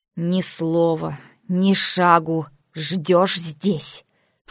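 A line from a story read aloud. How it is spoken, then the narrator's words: Hissed in face. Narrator (Russian): Прошипела я ему в лицо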